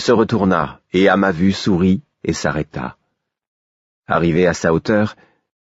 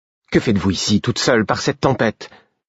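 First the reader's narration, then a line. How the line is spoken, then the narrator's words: Curt tone. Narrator (French): fis-je d'un ton sec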